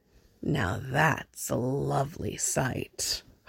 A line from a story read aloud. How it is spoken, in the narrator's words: Harvey rumbles